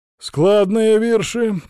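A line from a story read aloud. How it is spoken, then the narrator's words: Approving grunt. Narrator (Russian): одобрительно хмыкнул поп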